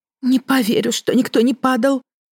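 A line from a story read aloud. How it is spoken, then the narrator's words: Trembling doubtful voice. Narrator (Russian): дрожащим голосом усомнилась Светлозара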